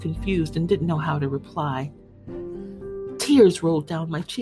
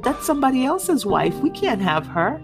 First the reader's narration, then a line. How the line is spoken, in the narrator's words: laughed and said